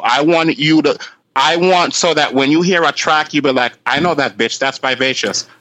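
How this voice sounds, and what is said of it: Jamaican-English accent, deep voice. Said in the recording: “the raw Jamaican mix with English accent ... that manly, womanly voice”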